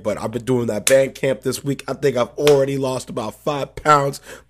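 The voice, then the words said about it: Hoarse, worn-out voice. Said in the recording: “as you can hear, my voice is a little dead”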